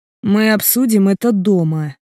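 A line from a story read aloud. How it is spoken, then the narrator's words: Near growl through teeth. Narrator (Russian): сквозь зубы уже почти рычу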